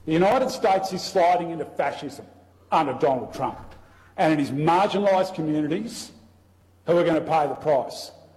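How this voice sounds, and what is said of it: Australian accent. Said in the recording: “I love it with the Australian accent. ... It sounds like he's going to put another shrimp on the Barbie.”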